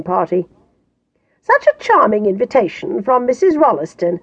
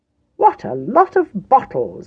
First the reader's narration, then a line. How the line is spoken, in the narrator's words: exclaimed